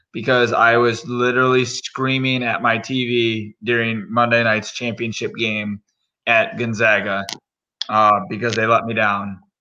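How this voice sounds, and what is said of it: Hoarse voice. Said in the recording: “I apologize for my voice tonight. It's a little hoarse”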